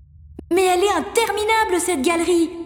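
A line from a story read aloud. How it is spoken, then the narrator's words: Shouted. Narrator (French): crie-t-il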